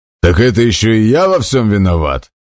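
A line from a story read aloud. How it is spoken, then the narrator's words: Roar. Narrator (Russian): взревел Хаммер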